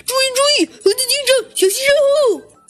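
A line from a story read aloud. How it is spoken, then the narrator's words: Sudden loud cry, chick. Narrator (Chinese): 忽然小鸡墩墩大叫了起来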